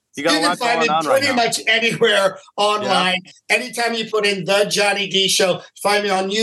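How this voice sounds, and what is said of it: Usual voice. Nothing is said of it.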